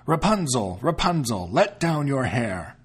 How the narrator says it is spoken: called out

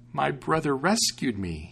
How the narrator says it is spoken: he exclaimed

